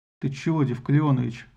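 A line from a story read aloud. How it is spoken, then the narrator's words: Calm reply. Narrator (Russian): спокойно ответил Мелион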